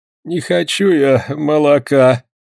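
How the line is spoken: Answering between groans. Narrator (Russian): ответил между двумя стонами

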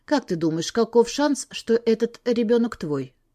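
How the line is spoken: Calm voice hiding despair. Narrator (Russian): Мой голос прозвучал на удивление спокойно для того отчаяния, которое разрывало меня изнутри

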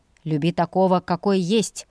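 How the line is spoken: Smirking. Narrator (Russian): хмыкнул он

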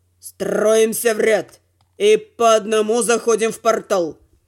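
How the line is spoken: Grim mutter. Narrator (Russian): мрачно буркнув

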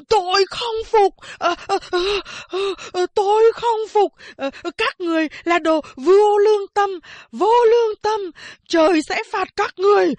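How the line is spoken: Panting, frenzied screaming. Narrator (Vietnamese): Anh ta thở phì phò, gào thét như điên

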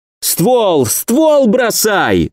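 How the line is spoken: Yelling while moving. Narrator (Russian): заорал я на ходу

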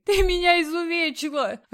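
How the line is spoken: Sobbing bearded man. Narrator (Russian): рыдал бородатый

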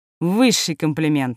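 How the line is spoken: Snorting. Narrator (Russian): хмыкнула я

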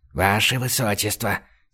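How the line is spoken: Quiet whisper. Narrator (Russian): тихо зашептала фрейлина ей на ухо

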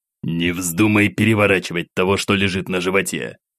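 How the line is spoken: Hissing warning. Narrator (Russian): зашипел Самсон на малыша

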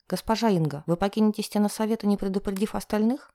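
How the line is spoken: Frightened question. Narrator (Russian): испуганно спрашивает Галина

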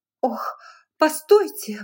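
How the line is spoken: Exclaimed. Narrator (Russian): воскликнула она

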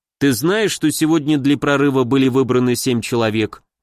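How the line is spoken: Plain. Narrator (Russian): спросил я

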